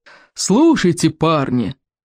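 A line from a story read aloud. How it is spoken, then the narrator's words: Roaring. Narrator (Russian): взревел плевака Крикливый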